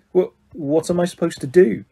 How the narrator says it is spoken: he stammered

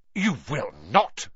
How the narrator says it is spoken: snapped Mrs

